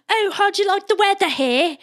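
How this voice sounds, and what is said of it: Condescending put-on British accent. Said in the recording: “speaking in a British accent ... really condescendingly”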